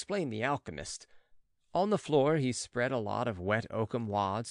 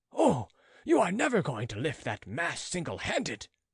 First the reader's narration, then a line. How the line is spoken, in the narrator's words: exclaimed the spectator